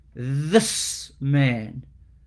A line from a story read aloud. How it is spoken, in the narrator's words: almost hissing like a snake